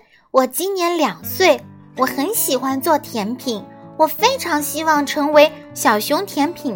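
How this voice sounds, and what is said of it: Usual voice. Nothing is said of it.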